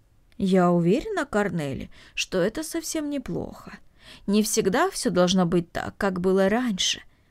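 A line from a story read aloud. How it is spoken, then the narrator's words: Thoughtful. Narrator (Russian): задумчиво произнесла Марта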